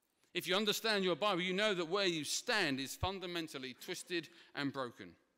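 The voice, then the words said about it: Essex English accent. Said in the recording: “that's my Essex accent”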